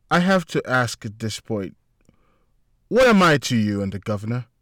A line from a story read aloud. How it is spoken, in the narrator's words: Melissa turned to him calmly